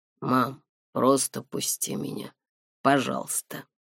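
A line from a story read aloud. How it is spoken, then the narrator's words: Strange, altered voice. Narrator (Russian): сказал не своим голосом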